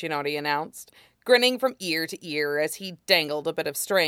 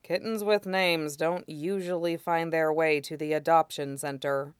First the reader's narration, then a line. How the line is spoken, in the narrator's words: Aizawa said flatly